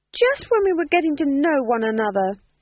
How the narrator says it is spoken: shouted

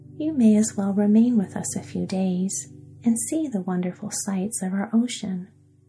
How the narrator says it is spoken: continued the queen in a cordial, friendly tone

